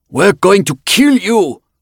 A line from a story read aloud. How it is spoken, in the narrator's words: came a shout from outside the room